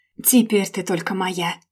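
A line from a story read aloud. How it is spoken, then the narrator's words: Growl. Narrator (Russian): рыкнул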